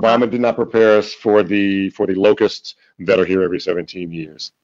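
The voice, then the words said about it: Imitates another person's voice. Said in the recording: “My Donald Trump impersonation sucks anyhow.”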